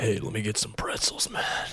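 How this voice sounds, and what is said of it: Radio announcer voice. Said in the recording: “put my radio voice on”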